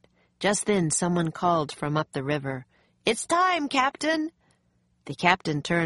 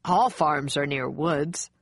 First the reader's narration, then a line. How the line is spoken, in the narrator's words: the man said with a laugh